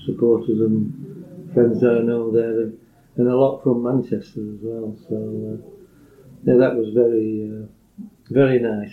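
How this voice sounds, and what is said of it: Yorkshire accent. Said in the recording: “you've still got that Yorkshire accent. I don't know whether it's as uh, deep and broad as it once was, but you've still got it”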